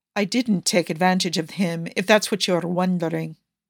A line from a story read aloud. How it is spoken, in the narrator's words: Niccolo says, much more calmly than Yusuf would in his place